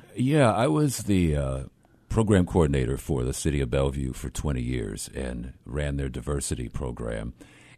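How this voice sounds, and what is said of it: Smooth, broadcast-quality radio voice. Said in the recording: “you got a great radio voice”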